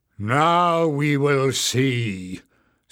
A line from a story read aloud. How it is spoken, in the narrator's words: sneered Warren